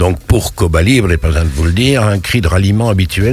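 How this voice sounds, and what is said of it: Usual voice. Nothing is said of it.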